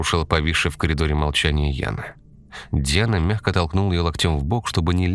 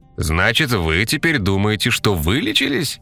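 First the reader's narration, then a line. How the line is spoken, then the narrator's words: Sarcastic interruption. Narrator (Russian): язвительно перебил ее дядя Ваня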